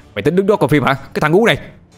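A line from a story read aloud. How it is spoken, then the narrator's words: Loud shout. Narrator (Vietnamese): Người đó hét lớn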